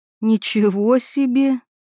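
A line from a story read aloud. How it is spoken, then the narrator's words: Breathless exclamation. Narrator (Russian): выдохнула она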